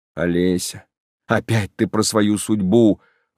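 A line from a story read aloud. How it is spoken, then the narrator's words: Impatient exclamation. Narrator (Russian): воскликнул я нетерпеливо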